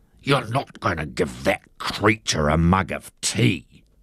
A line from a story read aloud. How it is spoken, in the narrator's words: Harry Wakatipu hissed